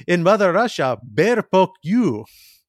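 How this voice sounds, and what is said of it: Poor Yakov Smirnoff Russian accent, sounding Scottish. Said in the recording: “the Yakov Smirnoff impression I am about to try and perform ... That was like Scottish. ... It was a little Scottish. I'm not great at accents, admittedly.”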